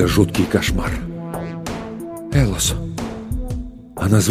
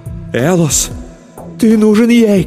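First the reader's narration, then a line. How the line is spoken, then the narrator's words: Shouting. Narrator (Russian): кричала моя любовь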